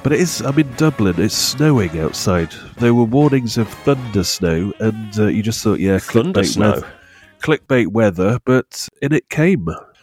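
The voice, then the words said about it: Congested voice with a cold. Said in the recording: “I've got a cold again. I've always got a cold.”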